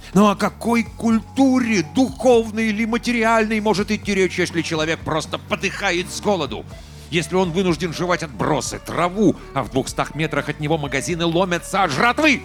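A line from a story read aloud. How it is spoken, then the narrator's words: Piercing shout. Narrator (Russian): пронзительно выкрикнул он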